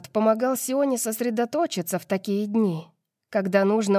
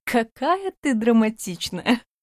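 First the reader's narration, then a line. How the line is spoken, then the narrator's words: Laughing. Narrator (Russian): Засмеялась Альба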